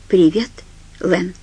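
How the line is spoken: Calm. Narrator (Russian): сказал он спокойно

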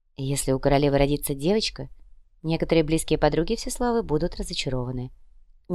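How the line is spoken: Quiet drawl. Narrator (Russian): негромко протянула Яна

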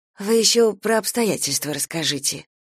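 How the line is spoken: Quiet. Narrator (Russian): тихо проговорила Дуня

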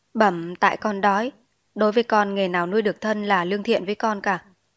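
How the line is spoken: Smiling. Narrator (Vietnamese): Chúa cụt mỉm cười

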